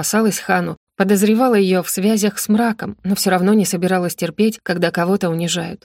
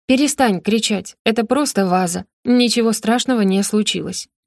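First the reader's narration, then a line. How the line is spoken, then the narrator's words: Cold, displeased. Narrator (Russian): холодно произнесла Роза, которой происходящее совершенно не нравилось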